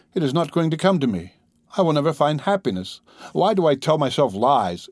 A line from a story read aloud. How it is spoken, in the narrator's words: she cried